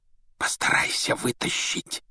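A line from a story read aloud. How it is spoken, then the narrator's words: Whisper. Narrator (Russian): шепнул Рон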